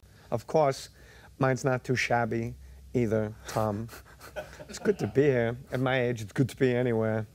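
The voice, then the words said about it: Christopher Walken impression. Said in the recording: “Jay Moore does a great Christopher Walken. Like, he does the best Christopher Walken impression ... does anyone do a better Christopher Walken than you?”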